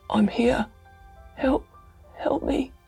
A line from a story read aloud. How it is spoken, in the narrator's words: came the voice more faintly